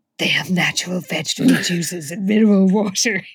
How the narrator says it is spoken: he said huskily

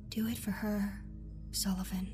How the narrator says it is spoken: whispering

